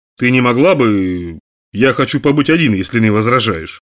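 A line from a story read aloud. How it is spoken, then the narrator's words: Calm. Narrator (Russian): спокойно произнес Брюкс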